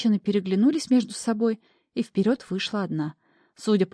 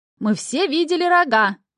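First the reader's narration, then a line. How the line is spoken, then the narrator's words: Shout from crowd. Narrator (Russian): выкрикнула из толпы другая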